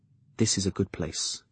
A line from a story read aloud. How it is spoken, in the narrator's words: I said softly